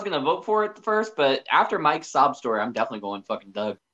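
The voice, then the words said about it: Nasal, congested voice. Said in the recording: “you have a funny voice... Honk honk! I can hear you go honk honk... that's because you can't breathe on your nose”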